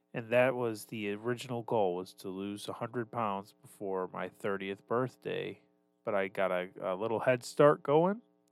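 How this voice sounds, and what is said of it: Congested, stuffed-up nasal voice. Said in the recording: “I don't know if you can hear it in my voice right now ... all of the dust and dirt and ick got into my sinuses ... I'm stuffed up”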